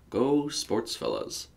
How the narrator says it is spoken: Joel mumbled

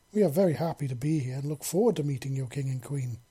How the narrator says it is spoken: Celia said in her best diplomatic voice

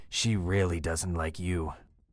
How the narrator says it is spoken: I chuckle darkly

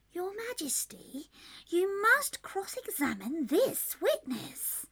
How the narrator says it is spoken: the White Rabbit, who said in a low voice

